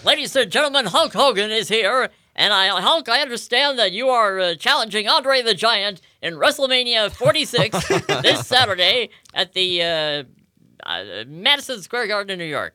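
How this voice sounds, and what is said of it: Imitates a wrestling announcer's voice. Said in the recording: “do my Mean Gene Okerlund impersonation”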